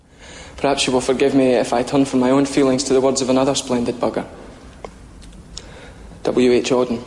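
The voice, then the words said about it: Dramatic reading, bad Scottish accent. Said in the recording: “my attempted dramatic reading ... in a terrible Scottish accent”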